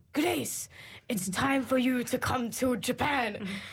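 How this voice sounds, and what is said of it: Quoted message in a put-on accent. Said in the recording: “with the accent.”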